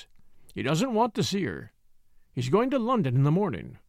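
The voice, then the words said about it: Husky old man character voice. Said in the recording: “he said in a husky voice.”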